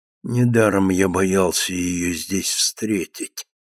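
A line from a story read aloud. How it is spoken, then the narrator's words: Muttering to himself. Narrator (Russian): бормотал он про себя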